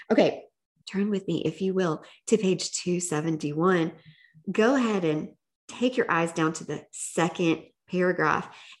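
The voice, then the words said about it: Strong regional accent. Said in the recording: “My accent's coming out real strong.”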